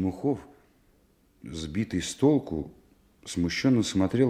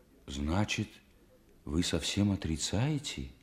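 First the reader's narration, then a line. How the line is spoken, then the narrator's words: Horrified near-whisper question. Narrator (Russian): ужасаясь почти шепотом, спросил Стремухов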